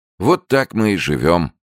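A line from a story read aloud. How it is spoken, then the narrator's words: Sad. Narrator (Russian): печально сказал Анучин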